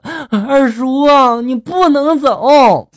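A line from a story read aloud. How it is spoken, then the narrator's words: Child crying. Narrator (Chinese): 小侄子这时候抱着我大腿，哭着就说了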